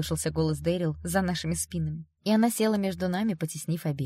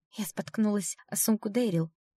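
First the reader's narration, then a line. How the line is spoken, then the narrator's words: Trembling whisper. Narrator (Russian): прошептала Элли дрожащими губами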